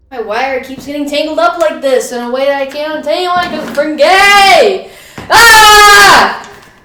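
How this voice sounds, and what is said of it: Screaming. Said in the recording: “stop screaming”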